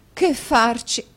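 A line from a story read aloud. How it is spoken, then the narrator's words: Exclamation. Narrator (Italian): esclamò la signora Nickleby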